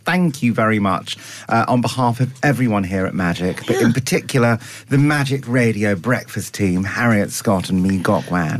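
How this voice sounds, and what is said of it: Put-on posh accent. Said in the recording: “speaking posh because you met royalty last night”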